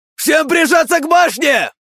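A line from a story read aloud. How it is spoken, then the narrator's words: Shouted. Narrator (Russian): крикнул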